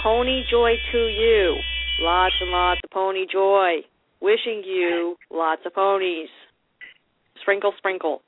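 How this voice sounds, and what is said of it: Imitating the Pony Genie's voice. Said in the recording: “my best impersonation ... Just not as good as her.”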